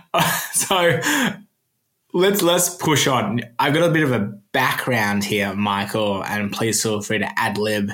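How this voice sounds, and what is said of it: Australian accent. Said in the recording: “That's my Australian accent.”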